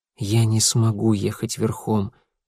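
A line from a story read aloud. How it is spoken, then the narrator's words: Quiet reply. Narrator (Russian): тихо ответил Элиас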